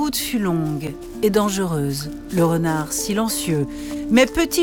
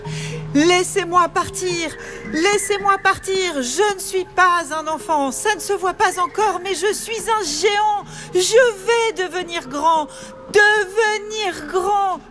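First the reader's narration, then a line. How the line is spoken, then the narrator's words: Screaming into emptiness. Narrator (French): hurla-t-il dans le vide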